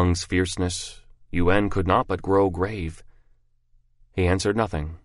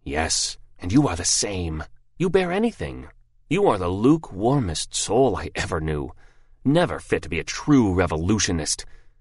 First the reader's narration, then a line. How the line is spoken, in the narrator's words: said in a fierce, low tone